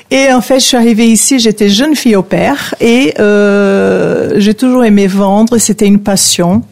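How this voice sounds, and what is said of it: Brazilian accent speaking French. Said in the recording (French): “je suis brésilienne ... On entend votre joli accent. ... L'accent, malheureusement, il reste”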